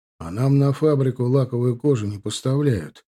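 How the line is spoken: Plain. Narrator (Russian): ответил Филатов

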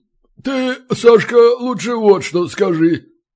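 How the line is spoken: Low booming drone. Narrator (Russian): прогудел Балин

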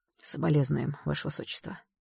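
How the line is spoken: Sighing. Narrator (Russian): вздохнул Кайл

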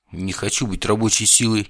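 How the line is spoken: Suddenly angry. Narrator (Russian): неожиданно зло сказал я

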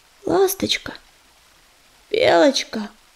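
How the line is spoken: Hoarse breathy. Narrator (Russian): хрипло выдохнул он

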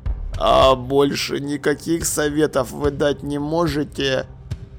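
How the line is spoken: Quiet, barely moving lips. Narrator (Russian): Тихо поинтересовался Ваймс, стараясь шевелить губами как можно незаметнее

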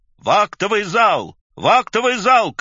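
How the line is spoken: Scattered shouts from behind. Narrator (Russian): кричали сзади единичные голоса

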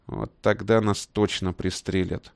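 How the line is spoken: Gloomy. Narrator (Russian): мрачно сказал Ивантеев

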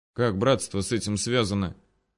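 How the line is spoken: Quiet question. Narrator (Russian): тихонько спросил Григорий у Мельникова

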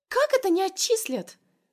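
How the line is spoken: Shrill squeal. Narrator (Russian): Взвизгивает одногруппница

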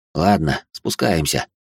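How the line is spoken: Sigh. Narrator (Russian): вздохнул я

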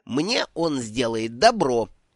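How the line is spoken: Growl from the stones. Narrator (Russian): Откуда-то из камней раздалось рычание

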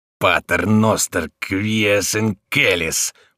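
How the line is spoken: Hissed through teeth. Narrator (Russian): прошипел сквозь зубы

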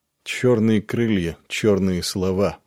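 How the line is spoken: Gloomy. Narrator (Russian): мрачно отозвался Нед

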